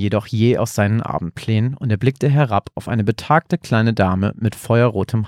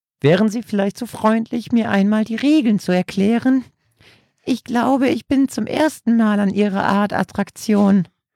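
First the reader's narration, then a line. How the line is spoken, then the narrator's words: Elderly woman squeaking. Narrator (German): quiekte die ältere Dame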